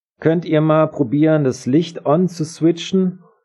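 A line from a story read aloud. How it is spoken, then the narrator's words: Calling down hallway. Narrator (German): rief Tobi in Richtung Flur zurück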